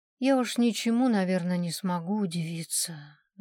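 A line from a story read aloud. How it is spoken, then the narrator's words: Sighing. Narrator (Russian): вздохнула Нина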